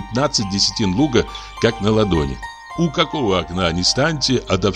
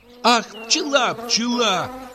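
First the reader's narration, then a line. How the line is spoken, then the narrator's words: Shriek. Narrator (Russian): взвизгнула она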